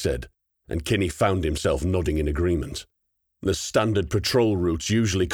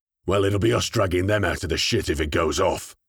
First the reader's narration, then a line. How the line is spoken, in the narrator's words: Kronig rumbled